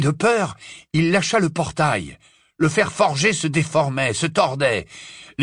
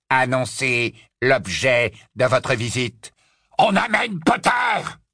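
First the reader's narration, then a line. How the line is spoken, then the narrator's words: Triumphant roar. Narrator (French): rugit Greyback d'une voix triomphante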